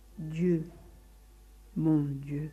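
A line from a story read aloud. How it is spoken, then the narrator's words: Pleading murmur. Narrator (French): murmura suppliant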